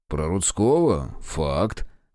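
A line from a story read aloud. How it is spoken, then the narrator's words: Said with a snort. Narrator (Russian): сказал Невзоров и хмыкнул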